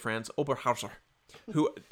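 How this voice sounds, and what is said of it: Put-on German accent. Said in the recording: “that's my German accent there for you.”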